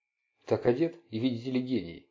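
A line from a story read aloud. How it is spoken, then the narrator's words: Mutter. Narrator (Russian): пробормотал Марк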